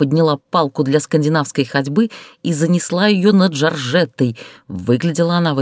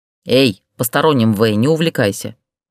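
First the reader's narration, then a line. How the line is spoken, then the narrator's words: Snarling. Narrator (Russian): рыкнула на Ксению Штукина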